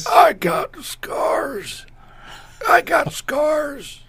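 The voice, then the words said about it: Imitates an old man's voice. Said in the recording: “can you do an impersonation of Emilio's old man voice?”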